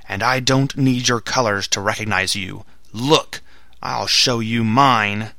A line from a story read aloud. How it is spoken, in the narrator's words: he shouted in his powerful voice